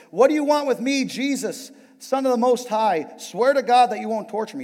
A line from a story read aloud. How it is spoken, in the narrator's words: shouted at the top of his voice